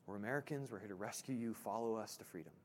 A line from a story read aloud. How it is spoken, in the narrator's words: he whispers to one of the prisoners and says